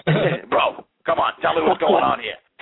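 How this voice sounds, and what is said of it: Jersey accent impression of DDP. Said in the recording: “my Jersey imitation. ... You guys got the same voice.”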